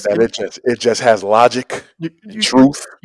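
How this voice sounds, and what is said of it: Preacher-like delivery. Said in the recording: “your best impersonation of Kirk Franklin ... You're preaching to the choir”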